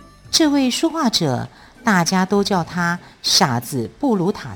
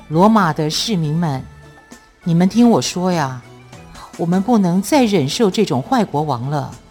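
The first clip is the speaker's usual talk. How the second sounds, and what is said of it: Deep, powerful male voice. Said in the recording (Chinese): “一个男子以雄厚的声音说起话来”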